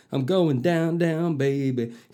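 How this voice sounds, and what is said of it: Failed rapper accent, gangster-like. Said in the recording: “Can't do a rapper's accent. ... That didn't even sound like a rapper. That sounded like somebody out of fucking Goodfellas.”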